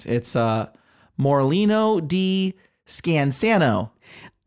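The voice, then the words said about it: Put-on Midwestern American accent. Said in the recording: “with like a Midwest accent ... I'm very good at this accent.”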